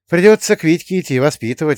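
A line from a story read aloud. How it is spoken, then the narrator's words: Sigh. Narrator (Russian): вздохнул я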